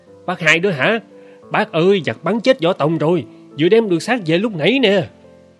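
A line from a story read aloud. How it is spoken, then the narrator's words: Man shouting. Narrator (Vietnamese): người đàn ông đứng sau lái bèn la lên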